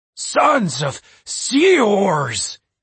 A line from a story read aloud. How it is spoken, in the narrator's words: he said between gasps